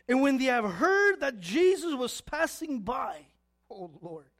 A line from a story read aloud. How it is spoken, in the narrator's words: they cried out